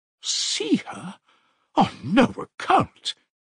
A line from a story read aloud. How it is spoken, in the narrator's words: cried Pulcheria Alexandrovna